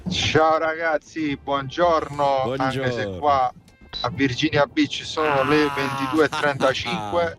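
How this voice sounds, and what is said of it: Campanian Italian accent. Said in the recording (Italian): “con l'accento campano”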